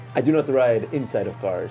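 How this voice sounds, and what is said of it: Put-on Wakandan accent. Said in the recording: “What accent is that? ... I haven't practiced my Wakandan accent.”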